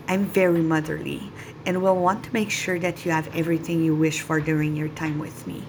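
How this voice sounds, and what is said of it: Slight Quebec French accent. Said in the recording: “a tint of French accent in my voice ... from the great capital of Quebec”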